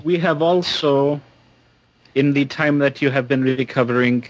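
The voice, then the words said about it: Attempted Russian accent, uncertain. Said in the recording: “I have no idea what accent it is I'm actually using there. He's supposed to be Russian.”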